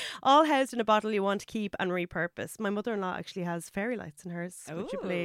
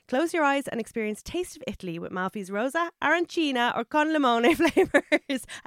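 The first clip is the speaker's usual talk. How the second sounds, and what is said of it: Put-on Italian accent. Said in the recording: “I have to do the Italian accent.”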